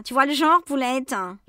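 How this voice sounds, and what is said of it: Coarse working-class French accent. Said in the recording (French): “un accent cockney à couper au couteau. ... C'est un peu comme si je te causais comme ça, en balançant des gros mots à tous les coins de phrase.”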